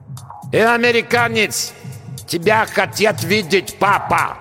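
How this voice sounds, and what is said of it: Terrible thick foreign accent. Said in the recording (Russian): “сказали оттуда с жутким акцентом”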